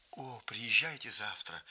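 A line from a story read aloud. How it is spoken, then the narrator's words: Plain. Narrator (Russian): сказала она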